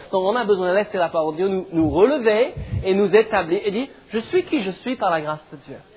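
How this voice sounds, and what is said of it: Non-native French accent. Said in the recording (French): “je fais encore des fautes de français, et mon accent”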